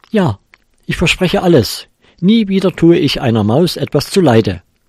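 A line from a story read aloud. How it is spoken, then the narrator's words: Calling out. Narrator (German): rief der Kater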